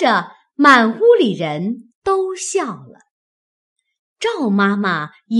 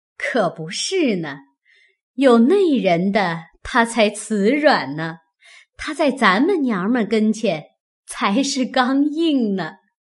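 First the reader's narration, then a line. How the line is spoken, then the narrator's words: Laughing. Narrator (Chinese): 凤姐笑道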